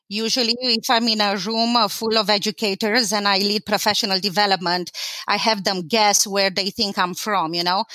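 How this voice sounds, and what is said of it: Romanian Eastern European accent. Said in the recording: “It's pretty obvious that I have an accent. ... they do guess that I'm from Eastern Europe. ... I was born in Romania, Eastern Europe ... I did keep my accent”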